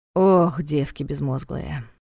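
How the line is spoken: Sighing. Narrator (Russian): вздохнул Дмитрий

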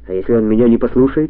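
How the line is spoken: Plain. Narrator (Russian): спросил Кальтенбруннер

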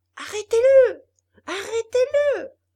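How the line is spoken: Shouting. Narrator (French): hurlait Geppetto

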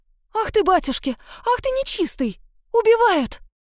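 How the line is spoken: Woman shrieking from afar. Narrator (Russian): Завизжала тетка где-то в здании напротив

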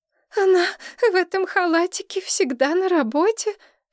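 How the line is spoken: Sobbing relative. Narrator (Russian): всхлипнула родственница

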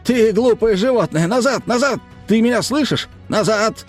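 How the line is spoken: Commanding yell, lion tamer. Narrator (Russian): вопил Эд, словно укротитель львов

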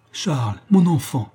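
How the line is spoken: Exclaimed. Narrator (French): s'écrie le proscrit

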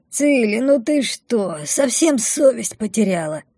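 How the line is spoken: Sleepy grumbling. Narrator (Russian): заворчала Мина, не открывая глаз

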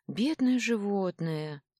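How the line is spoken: Sighing. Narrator (Russian): вздохнула я

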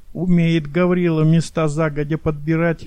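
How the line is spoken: Sighing remark. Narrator (Russian): вздохнул Максимов

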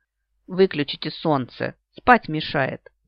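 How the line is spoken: Grumbling dragoness. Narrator (Russian): заворчала драконица

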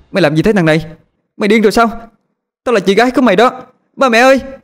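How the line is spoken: Woman screaming. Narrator (Vietnamese): Cô hét lên

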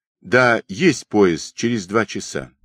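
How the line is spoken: Plain. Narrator (Russian): ответил Алексей Иванович

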